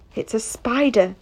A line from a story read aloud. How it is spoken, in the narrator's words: she kept whispering